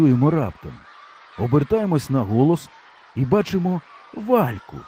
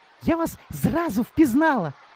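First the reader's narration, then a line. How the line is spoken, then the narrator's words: Joyful cry. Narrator (Ukrainian): радісно скрикекече Валька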